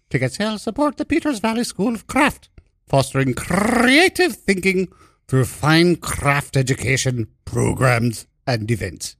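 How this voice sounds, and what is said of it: Put-on accent while reading. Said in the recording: “I hope we still get paid after that accent.”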